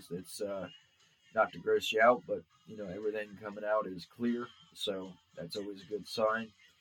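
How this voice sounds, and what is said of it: Slightly nasal, congested voice. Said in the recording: “I sound a little nasally, ... it's just allergies”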